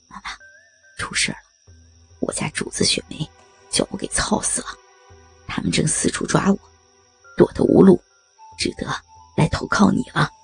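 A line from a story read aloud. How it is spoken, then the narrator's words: Low voice. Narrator (Chinese): 对常妈妈低声说道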